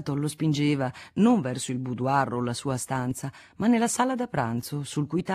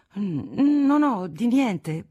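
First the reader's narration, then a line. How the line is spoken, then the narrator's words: Stammering young man. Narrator (Italian): balbettò il giovane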